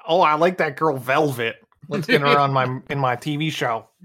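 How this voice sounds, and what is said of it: David Lynch impression. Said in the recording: “That's my David Lynch impression. ... It's pretty spot on.”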